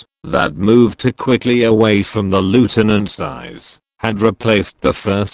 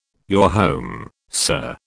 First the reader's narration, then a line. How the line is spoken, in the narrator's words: he said quietly